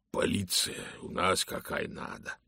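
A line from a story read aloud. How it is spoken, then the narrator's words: Hoarse voice. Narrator (Russian): сказал он хриплым голосом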